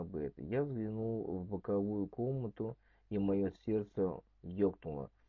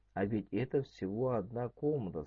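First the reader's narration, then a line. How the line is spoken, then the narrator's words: Plain. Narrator (Russian): сказала она бы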